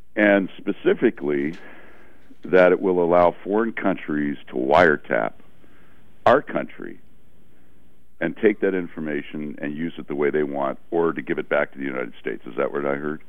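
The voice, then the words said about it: Rough, congested voice from cold. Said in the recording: “I have a cold here, so pardon my throat.”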